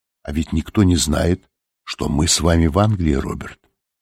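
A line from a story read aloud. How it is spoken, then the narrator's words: Quiet remark. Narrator (Russian): София тихо заметила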